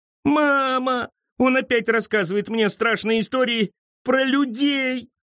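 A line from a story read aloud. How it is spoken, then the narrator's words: Whining girl. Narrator (Russian): захныкала Мэри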